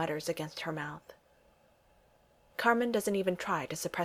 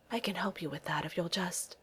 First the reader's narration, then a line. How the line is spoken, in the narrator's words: she whispers